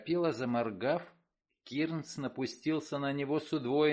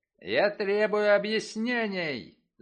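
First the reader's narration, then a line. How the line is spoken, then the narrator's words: Heated shout. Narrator (Russian): запальчиво выкрикнул он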